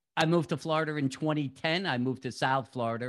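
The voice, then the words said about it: New York accent. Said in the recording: “From my accent, most people should figure out I grew up in New York.”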